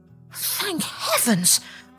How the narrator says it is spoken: cried the duckling

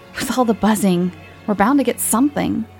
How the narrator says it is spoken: Everett exclaimed

